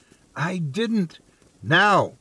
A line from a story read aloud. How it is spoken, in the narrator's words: yelled